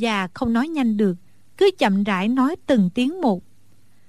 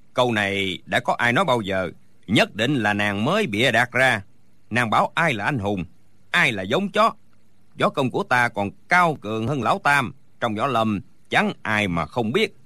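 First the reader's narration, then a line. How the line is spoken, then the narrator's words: Furious booming shout. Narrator (Vietnamese): Đinh Bất Tứ tức quá, quát lên oang oang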